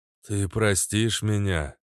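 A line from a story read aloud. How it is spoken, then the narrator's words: Hoarse male voice. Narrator (Russian): голос у него был хриплый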